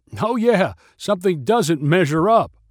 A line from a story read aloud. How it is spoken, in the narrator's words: Dan's mind was obviously racing before he blurted out